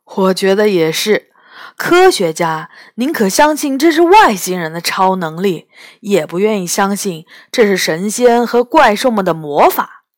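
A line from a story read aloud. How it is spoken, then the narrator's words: Laughing. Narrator (Chinese): 杨永乐笑着说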